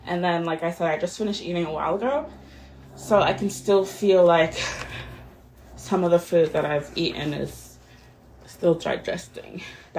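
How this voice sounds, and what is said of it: Breathless, out-of-breath speech. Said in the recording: “I'm out of breath just because honestly, I finished eating and then I showered and then I'm just moving all around. So I'm just out of breath.”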